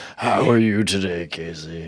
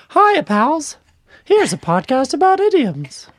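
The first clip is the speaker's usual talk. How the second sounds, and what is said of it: Mickey Mouse cartoon voice. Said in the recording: “Whose voice was that supposed to be? ... Mickey Mouse.”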